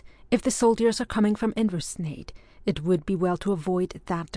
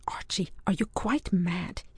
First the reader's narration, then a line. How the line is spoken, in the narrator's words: whispered